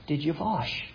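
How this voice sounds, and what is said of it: Imitated strong German accent. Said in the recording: “he had the strong, strong, strong German accent that me and my brothers always imitated after”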